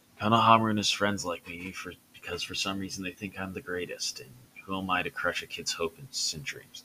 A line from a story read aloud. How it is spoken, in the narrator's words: Hiruzen chuckled a bit